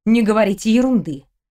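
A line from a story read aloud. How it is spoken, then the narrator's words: Stern command. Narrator (Russian): строго велела Елизавета Николаевна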